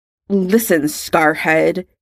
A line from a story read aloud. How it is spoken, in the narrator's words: Draco spat